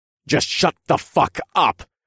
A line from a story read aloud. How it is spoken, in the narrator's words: snarled